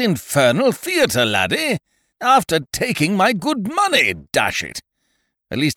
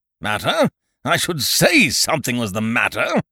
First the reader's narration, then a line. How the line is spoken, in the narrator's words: snorted Ukridge, astonishment giving way to righteous indignation